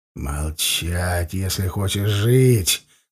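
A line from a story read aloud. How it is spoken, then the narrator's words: Menacing whisper. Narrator (Russian): грозно прошептал я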